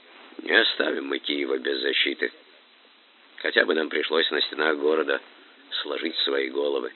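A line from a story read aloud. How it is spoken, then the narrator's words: Quiet. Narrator (Russian): тихо сказал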